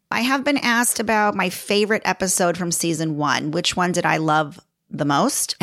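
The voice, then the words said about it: Chicago American accent. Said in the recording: “when I hear the recorded voice of myself, I'm like, oh, yeah, I'm totally Chicago ... Chicago girl living in LA but throw Italian at it. And that's pretty much my accent right there.”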